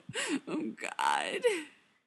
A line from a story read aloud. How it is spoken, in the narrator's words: moans